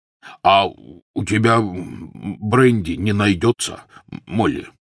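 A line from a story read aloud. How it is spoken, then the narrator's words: Trembling voice. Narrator (Russian): спросил дрогнувшим голосом Хагрид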